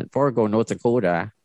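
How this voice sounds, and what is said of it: Poor attempt at Fargo accent. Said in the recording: “I can't do the accent ... That's pretty bad. That's not my forte, is doing accents.”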